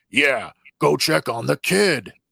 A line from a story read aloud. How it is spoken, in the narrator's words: Wrecker menacingly growls at him